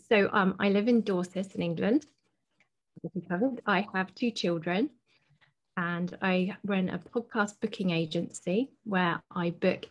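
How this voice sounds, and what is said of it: British English accent. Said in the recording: “It makes me very, very homesick to hear your accent because, the UK is our second home.”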